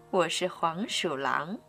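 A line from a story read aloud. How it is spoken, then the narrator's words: Low voice. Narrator (Chinese): 他低声说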